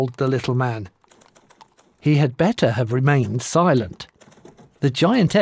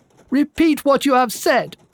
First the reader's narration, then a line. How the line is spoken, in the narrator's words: she shrieked